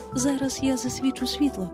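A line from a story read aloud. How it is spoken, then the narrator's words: Plain. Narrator (Ukrainian): сказала Венді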